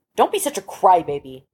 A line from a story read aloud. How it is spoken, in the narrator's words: Cyril snapped